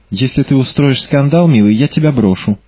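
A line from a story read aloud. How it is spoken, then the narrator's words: Calm. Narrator (Russian): сказала Марго спокойно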